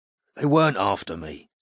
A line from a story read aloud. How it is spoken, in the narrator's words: croaked Douthwaite